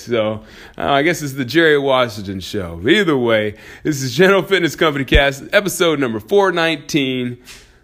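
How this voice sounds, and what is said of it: Good radio voice. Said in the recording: “I have a pretty cool radio voice. ... you got a pretty good radio voice.”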